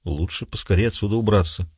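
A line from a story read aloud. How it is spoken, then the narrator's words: Muttering. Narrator (Russian): пробормотал Дагоста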